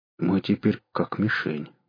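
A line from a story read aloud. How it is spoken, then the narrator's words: Gloomy mutter. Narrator (Russian): мрачно буркнул Кудыкин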